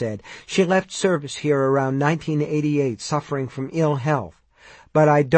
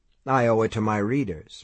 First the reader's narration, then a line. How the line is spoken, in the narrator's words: Mike said blandly